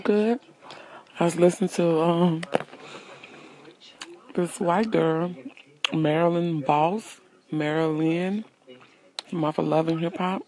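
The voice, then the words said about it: Congested, slightly sore-throated voice. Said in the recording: “I have a little sore throat, a little sinusy”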